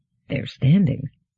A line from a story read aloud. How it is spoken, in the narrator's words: muttered Mandamus